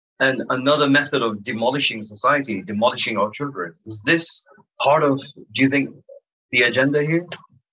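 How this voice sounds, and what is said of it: Mixed American-British accent. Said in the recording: “You have a part American, part British accent.”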